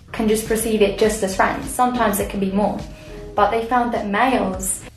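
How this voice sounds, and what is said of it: English accent. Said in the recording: “I can't get past the English accent... You knew it was English”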